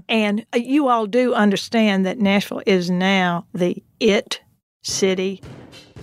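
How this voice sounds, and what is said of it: Exaggerated Southern US accent. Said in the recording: “I'm going to put on my most Southern accent now ... I thought that was pretty Southern, but yes. you can go more Southern ... I'm going to put on my most Southern accent here.”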